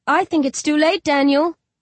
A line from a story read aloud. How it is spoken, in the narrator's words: Owlman chuckles